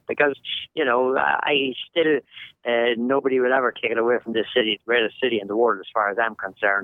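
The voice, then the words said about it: Irish accent. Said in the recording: “you're practically just an American guy with an Irish accent ... a New Yorker with an Irish accent”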